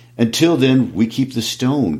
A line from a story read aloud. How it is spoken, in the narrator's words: cried Bard